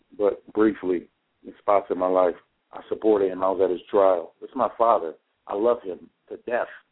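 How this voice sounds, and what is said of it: Slightly strained, fading voice. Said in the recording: “I'm losing my voice a little bit.”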